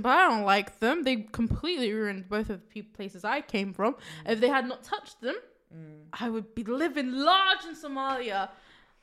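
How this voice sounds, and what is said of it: English accent. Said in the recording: “I don't like the English either... Don't believe my accent. I was born here, so I have to have this accent.”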